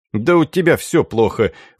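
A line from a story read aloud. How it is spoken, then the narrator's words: Snorting. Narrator (Russian): фыркнул Энгель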